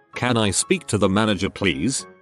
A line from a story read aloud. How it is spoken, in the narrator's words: in a curt voice, says